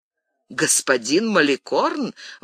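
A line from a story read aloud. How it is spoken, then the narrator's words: Exclaiming, bursting into laughter. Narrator (Russian): воскликнула госпожа де Сен-Реми, раздражаясь хохотом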